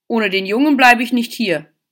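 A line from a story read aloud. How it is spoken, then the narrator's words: Small dog barking. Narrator (German): bellte der kleine Hund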